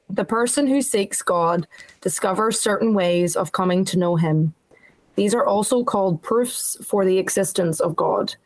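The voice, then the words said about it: Irish accent. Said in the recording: “Irish. Oh, is it the Irish accent? We love hearing you read.”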